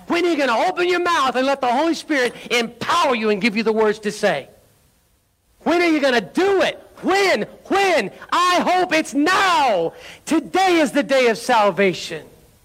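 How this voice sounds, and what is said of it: Yelling, excited preaching. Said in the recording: “why are you yelling at me? ... I'm just excited. ... I'm passionate.”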